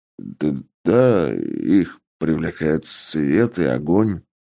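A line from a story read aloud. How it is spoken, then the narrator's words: Uncertain reply. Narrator (Russian): неуверенно ответил тот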